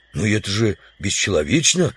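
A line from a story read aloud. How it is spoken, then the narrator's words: Exclamation. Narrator (Russian): воскликнул удалов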